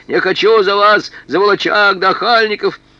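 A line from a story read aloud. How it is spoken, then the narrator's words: Desperate shout. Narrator (Russian): с отчаяния Леснорова крикнула прихрамывающему Осипу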